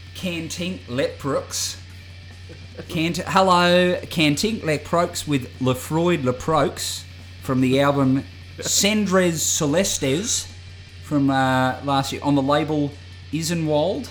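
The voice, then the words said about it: Put-on Australian accent. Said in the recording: “How would you say it in like an Australian accent?”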